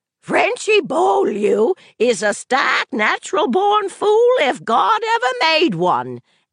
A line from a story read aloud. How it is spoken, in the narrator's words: Aunt Evie hollered